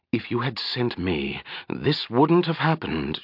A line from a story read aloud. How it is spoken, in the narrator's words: she hissed at Shadea, making no effort to hide her feelings